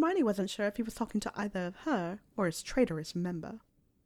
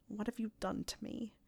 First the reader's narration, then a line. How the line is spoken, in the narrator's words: He mumbled